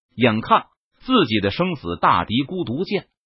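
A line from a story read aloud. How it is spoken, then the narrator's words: Annoyed. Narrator (Chinese): 姜伟脸色一沉，他有些恼怒道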